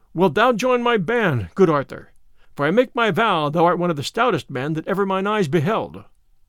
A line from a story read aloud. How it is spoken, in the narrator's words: At this Robin laughed again, and turning to the tanner, he said